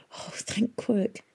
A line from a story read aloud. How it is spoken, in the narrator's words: whispered